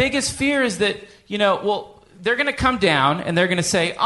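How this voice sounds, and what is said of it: Usual voice. Nothing is said of it.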